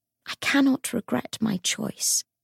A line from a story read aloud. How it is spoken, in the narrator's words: Cordelia said softly